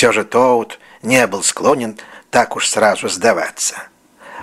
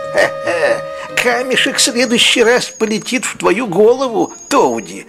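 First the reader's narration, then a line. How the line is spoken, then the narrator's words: Mocking shout. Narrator (Russian): крикнули они ему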